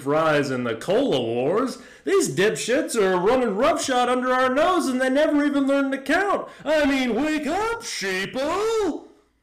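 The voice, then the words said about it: Hard-to-place put-on accent. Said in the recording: “your accent kind of goes somewhere, and I don't know exactly where, but I'm a fan”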